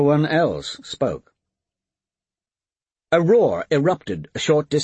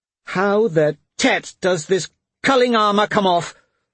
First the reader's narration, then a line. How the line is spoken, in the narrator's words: Moya shouted